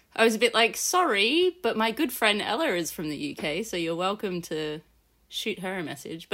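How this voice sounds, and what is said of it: Non-UK English accent. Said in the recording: “As you can tell by my accent, I am not from the UK”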